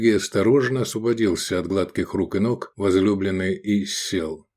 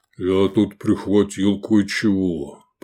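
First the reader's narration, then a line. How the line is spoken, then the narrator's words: Grumbled. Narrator (Russian): проворчал он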